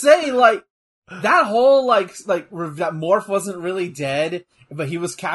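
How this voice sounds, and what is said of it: Usual voice. Nothing is said of it.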